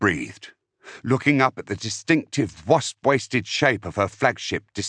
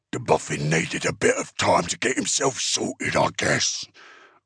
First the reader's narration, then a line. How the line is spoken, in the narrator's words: Uftak rumbled